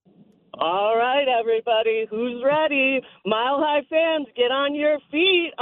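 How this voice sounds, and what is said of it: Sports arena announcer voice. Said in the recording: “Give us your best Nuggets announcer voice”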